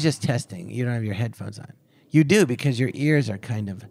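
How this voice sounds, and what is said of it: Usual voice. Nothing is said of it.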